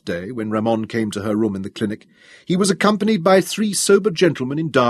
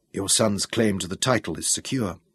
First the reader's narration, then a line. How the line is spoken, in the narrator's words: he whispered